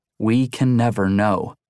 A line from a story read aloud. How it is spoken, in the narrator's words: Simone answered slowly